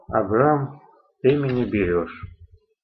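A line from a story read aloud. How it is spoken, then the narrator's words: Sighing speech. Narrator (Russian): Федор вздохнул и сказал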